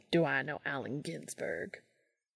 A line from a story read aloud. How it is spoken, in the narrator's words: He muttered into his beer